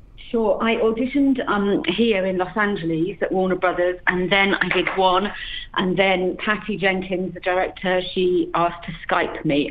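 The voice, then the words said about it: British accent. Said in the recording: “you have a fab, eternal British accent”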